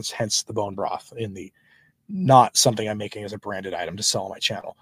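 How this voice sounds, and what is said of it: Strained, nearly lost voice. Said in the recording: “because of my voice... hear it in my voice... you can hear my voice is just gone”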